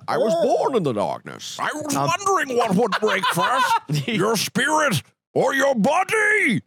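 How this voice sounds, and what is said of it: Imitates the Bane movie-villain voice. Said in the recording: “Who was the other guy that was kind of sounded like Connery? The other bad guy. ... You Bane.”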